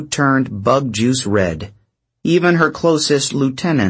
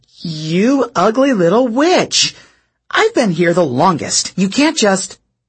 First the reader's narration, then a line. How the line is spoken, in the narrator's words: Drew spluttered